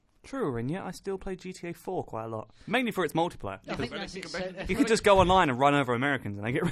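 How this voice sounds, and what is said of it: Usual voice. Nothing is said of it.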